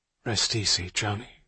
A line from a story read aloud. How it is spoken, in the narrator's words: he said under his breath